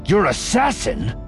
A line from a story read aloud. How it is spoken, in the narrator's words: Voss snapped